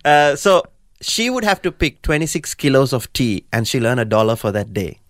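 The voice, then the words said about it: Hard-to-understand accent. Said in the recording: “Sorry, I wasn't understanding your accent.”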